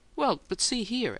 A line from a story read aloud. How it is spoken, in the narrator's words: Adams began nervously